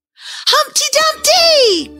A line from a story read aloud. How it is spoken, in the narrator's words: cried the others